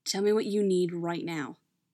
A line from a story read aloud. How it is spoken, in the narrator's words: he says